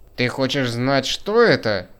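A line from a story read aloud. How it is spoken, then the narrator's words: Roaring like angry bull. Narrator (Russian): проревел голосом рассерженного быка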